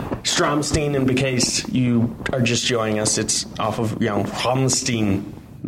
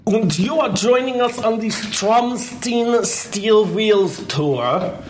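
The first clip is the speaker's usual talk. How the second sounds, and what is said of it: Bad put-on German accent. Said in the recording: “my terrible German accent ... why I do it with a German accent”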